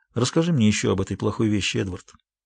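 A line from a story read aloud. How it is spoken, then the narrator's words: Quiet request. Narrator (Russian): тихо попросила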